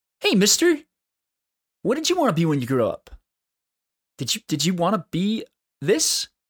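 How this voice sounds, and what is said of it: Childlike kid voice. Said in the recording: “in a kid voice”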